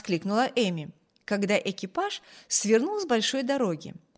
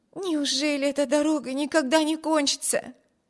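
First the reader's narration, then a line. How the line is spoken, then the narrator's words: Exclaimed. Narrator (Russian): воскликнула Эми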